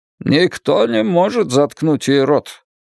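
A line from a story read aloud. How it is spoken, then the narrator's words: Distant grumble. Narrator (Russian): пробурчал Крис Ортега из хвостовой части салона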